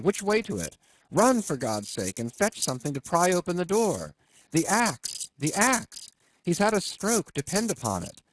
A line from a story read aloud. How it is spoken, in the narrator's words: cried